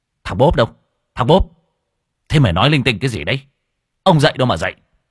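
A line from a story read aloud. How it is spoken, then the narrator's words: Sudden angry shout. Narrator (Vietnamese): Anh Tài bỗng nhiên trợn mắt quát lên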